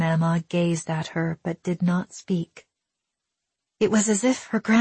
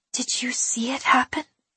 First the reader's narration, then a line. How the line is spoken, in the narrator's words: Willa whispered, her chest tightening